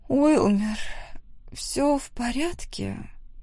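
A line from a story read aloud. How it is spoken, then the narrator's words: Soft, sleepy question. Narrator (Russian): Нежным и сонным голосом спросила Бенедикта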